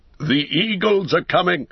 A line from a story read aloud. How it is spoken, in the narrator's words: cried in a loud voice, ringing above the din